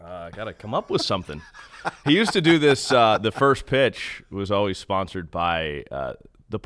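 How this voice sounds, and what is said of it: Usual voice. Nothing is said of it.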